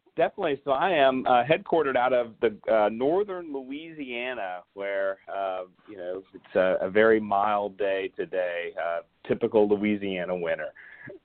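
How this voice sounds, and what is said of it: Slight twang. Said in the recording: “I can hear a little twang in there.”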